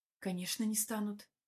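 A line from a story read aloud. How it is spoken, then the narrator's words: Barely audible mutter. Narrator (Russian): бормочу одними губами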